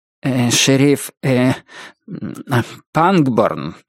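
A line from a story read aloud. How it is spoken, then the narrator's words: Stammering preacher. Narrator (Russian): преподобный отец Роуз был одним из тех дремучих баптистов, которые во время эмоционального напряжения начинают заикаться, бекать и мекать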